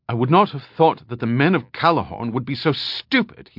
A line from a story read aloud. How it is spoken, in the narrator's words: he snapped, a sense of anger rushing through him